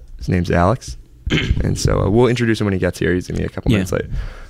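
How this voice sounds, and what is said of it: Worn-out, strained voice. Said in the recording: “My voice is long dead.”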